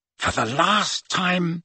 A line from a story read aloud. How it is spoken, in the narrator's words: said Harry, speaking in a slightly hoarse whisper after 3/4 of an hour of silence